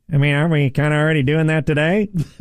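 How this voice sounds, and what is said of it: Imitates another person's voice. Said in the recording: “Was that your imitation of Dan?”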